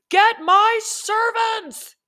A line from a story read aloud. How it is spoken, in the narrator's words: shouted